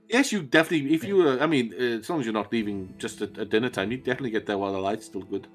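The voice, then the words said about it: Inconsistent put-on accent. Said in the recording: “This accent is all over the place.”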